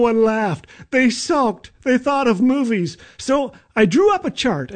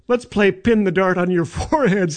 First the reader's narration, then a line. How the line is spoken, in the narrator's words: I said